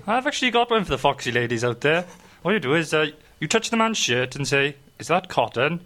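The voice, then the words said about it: Welsh accent. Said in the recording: “the Welsh accent helps as well”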